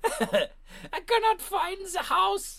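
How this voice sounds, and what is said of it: Mock Eastern European accent. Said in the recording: “crying Eastern European woman ... please don't do the accent ... That's just not German ... Bulgaria ... That's Borat, is it?”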